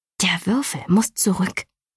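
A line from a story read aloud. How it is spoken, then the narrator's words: Hissing. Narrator (German): zischte Galina ihrem Bruder zu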